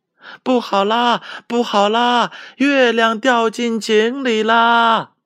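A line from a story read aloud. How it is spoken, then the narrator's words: Frightened little monkey, shouting while running. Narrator (Chinese): 小猴子吓得是撒腿就跑，一边跑一边还大声的叫喊着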